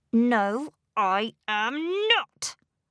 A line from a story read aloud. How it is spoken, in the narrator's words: said angrily